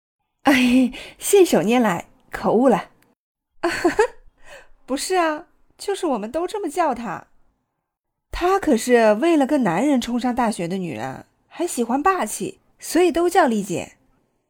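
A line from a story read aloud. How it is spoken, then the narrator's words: Laughing, quickly correcting herself. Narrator (Chinese): 许妮笑笑，立马改口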